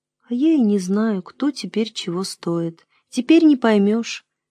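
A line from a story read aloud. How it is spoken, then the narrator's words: Quiet. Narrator (Russian): тихо сказала мать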